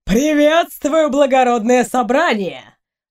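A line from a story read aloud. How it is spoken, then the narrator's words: Mocking. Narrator (Russian): насмешливо произнес Лемон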